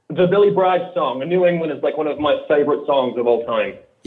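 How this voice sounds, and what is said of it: Australian accent. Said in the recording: “Do I detect an accent? Do I detect an accent ... I'm from Australia originally.”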